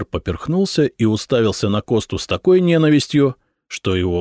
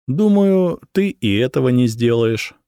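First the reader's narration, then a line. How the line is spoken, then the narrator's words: Calm reply. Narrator (Russian): спокойно ответил Коста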